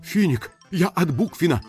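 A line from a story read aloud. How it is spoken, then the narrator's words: Hurried messenger. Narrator (Russian): торопливо сообщил посыльный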